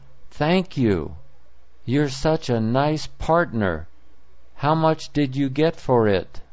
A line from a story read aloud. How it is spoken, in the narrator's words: she exclaimed